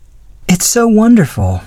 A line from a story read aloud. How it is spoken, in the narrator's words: breathed